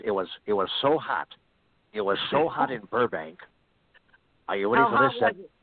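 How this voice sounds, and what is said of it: Imitates another person's voice. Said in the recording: “how about Johnny Carson? This is Johnny Carson.”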